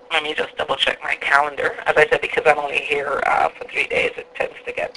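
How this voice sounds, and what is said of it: Slight non-American accent. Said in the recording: “You've got a twinge of an accent”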